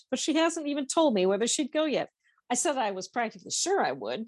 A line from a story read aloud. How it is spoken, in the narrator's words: Pam told him quickly